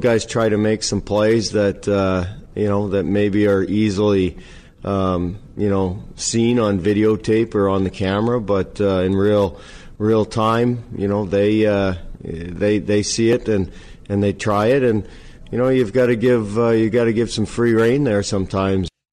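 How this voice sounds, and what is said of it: Canadian accent. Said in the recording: “Canadian accent? ... a good Canadian accent”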